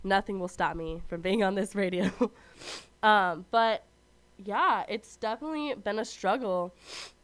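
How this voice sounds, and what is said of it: Sick-sounding voice. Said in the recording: “As you can probably hear in my voice, I am currently sick right now”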